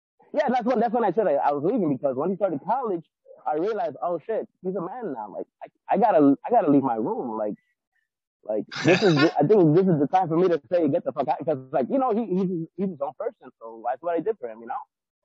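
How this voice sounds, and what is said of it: Strong Mexican accent. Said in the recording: “you got a strong accent, yeah, dude... I can hear your accent really clearly. It's like very Mexican... it's strong”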